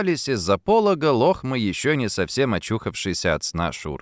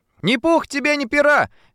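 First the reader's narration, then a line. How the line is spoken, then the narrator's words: Shouted. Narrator (Russian): крикнула она ему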